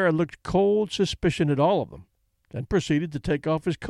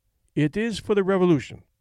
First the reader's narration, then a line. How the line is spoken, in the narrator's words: Vera answered